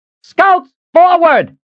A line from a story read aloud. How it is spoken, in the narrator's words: She yelled